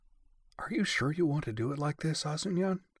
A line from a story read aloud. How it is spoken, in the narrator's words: she asked, trying to keep her voice down, but only really managing an obvious stage whisper